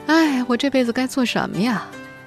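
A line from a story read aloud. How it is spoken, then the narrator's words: Mournful lament. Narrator (Chinese): 有很多读者甚至在这部小说完结之后哀叹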